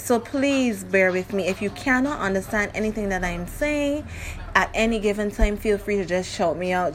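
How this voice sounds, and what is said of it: Barbadian accent. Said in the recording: “I'm from Barbados, so my accent is going to step in. And along with my dialect.”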